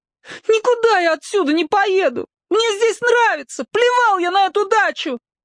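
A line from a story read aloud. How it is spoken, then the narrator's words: Anguished howl through tears. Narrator (Russian): И такая тоска навалилась на него, что он брызнул слезами и взвыл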